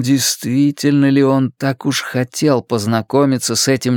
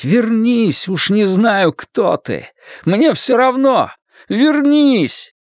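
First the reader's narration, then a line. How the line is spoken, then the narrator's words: Frantic urge to shout. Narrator (Russian): Ларри внезапно охватило безумное желание закричать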